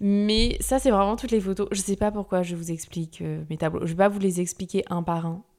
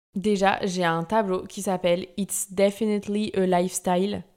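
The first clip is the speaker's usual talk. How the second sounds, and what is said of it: Exaggerated English accent. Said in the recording (French): “Bon, là, j'ai pris mon meilleur accent.”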